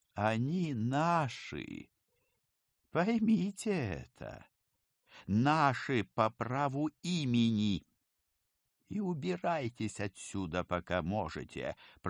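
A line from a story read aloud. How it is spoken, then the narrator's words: Hissed threat. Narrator (Russian): прошипел он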